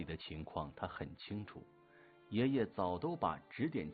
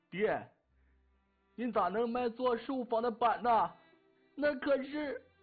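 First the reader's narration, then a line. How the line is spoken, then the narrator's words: Shocked, pained, angry shouting. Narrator (Chinese): 我爹大惊失色，痛心又气恼地喊道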